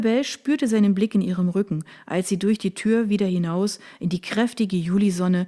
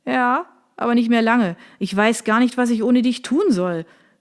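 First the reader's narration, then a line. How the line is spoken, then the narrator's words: Calling after her. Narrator (German): rief ihr Sergio nach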